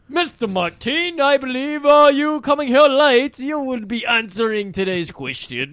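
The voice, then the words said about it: Snobbish voice with weird accent. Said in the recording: “you got to do like a snob ... That was like some weird accent.”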